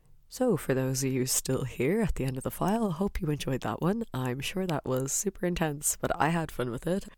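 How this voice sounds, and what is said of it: Slightly husky voice. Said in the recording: “I was really sick for a bit ... Maybe my voice sounds more husky, I'm not really sure.”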